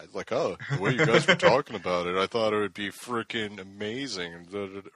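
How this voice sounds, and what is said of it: Impression of a friend's voice. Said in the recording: “That's a real good impression of me. ... That's excellent.”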